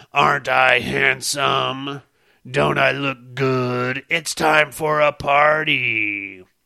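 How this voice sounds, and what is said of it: Silly put-on character voice. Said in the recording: “I do that stupid voice,”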